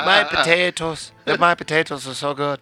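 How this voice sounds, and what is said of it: Put-on Irish accent. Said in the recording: “no one gives a shit about the Irish ... Love the accent.”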